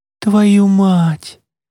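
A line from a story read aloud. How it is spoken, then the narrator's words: Breathless exclamation. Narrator (Russian): выдохнула Марица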